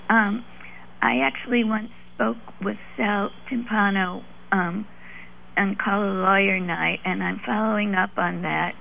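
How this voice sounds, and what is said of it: Hoarse voice. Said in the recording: “lost my voice, so I'm going to be sort of hoarse”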